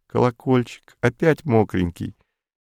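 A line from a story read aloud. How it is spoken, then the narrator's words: Tender female voice. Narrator (Russian): ласковым женским голосом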